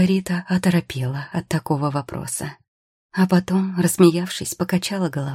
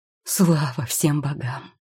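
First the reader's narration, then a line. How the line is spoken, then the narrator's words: Relieved exhale. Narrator (Russian): выдохнул Тео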